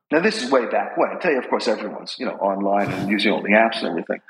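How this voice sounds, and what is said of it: New York City accent. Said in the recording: “As you can tell from my accent, I'm from New York City.”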